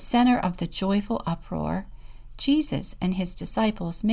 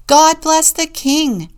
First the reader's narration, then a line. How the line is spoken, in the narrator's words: someone shouted